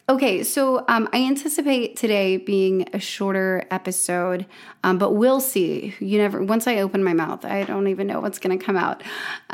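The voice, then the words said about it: Hoarse, raspy, nearly lost voice. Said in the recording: “I noticed I've like almost lost my voice ... add a little extra tonality and raspiness”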